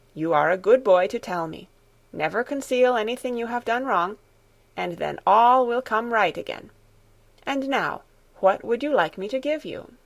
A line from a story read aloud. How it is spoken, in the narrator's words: Grandmamma answered kindly